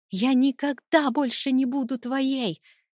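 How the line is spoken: Panicked scream. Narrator (Russian): закричала я, в панике

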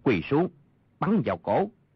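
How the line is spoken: Lowered voice. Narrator (Vietnamese): Thần tiễn thủ Triết Biệt hạ giọng nói

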